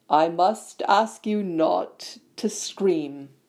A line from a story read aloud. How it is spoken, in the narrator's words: said Lockhart in a low voice